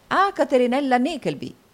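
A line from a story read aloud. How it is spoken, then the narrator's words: Three voices exclaiming. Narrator (Italian): esclamarono gli altri tre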